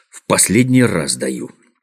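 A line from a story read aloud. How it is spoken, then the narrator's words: Grumbled. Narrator (Russian): проворчал Козлик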